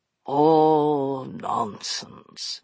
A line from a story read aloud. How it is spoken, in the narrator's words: replied Capricorn, in a bored voice